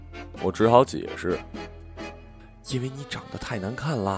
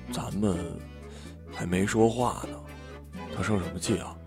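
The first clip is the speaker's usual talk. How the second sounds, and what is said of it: Quiet, hushed voice. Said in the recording (Chinese): “小声的”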